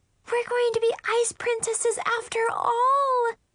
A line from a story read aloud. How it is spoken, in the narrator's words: Chloe screamed